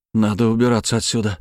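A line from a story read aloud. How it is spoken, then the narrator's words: Strained, forced out. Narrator (Russian): только и смог выдавить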